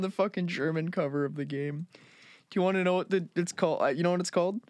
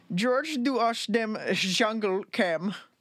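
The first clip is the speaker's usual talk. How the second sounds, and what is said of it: Put-on German accent. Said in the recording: “I'm going to bust out my best German accent, so I apologize if I offend anybody. ... I tried.”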